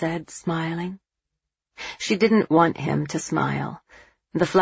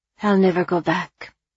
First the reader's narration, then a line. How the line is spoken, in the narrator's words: she said tightly